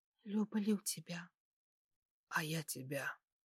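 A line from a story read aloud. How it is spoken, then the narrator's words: Overwhelmed whisper. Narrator (Russian): прошептал я в ответ, чувствуя, как мир разлетелся на части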